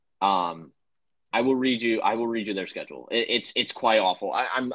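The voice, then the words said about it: Stumbling, slurred, jumbled speech. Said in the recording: “I'm slurring my words and I'm messing up my sentences”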